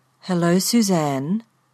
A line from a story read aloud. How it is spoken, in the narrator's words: the car said in a rich brown voice